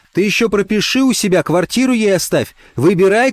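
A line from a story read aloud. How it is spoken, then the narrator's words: Shouting. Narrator (Russian): кричала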